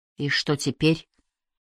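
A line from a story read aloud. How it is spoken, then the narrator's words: Weak exhausted whisper. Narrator (Russian): слабо прошептала обессиленная Кайя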